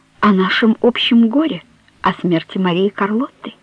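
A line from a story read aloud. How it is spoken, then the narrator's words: Soft. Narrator (Russian): мягко сказала Мануэла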